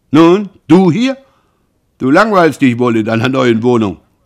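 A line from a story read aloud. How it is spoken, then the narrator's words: Calling out. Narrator (German): Roland rief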